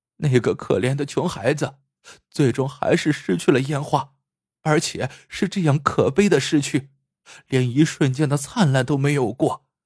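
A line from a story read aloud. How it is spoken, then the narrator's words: Crying. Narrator (Chinese): 贝贝哭着说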